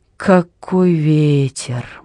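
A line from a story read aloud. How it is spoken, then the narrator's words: Gloomy remark. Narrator (Russian): мрачно заметил Варенци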